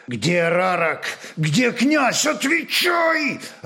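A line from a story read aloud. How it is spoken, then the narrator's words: Growling commander. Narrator (Russian): рычал воевода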